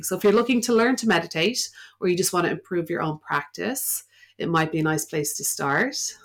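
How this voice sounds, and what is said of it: Irish accent. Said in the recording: “that accent, and you just have a nice voice ... The Irish accent ... What's the accent plus the voice? ... I love your accent.”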